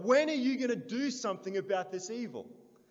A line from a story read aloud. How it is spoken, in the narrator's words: he cried out to God